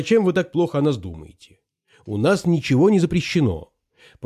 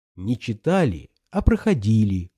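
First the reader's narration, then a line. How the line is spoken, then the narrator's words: Warm, smiling tone. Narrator (Russian): ласково улыбнулся Смерчев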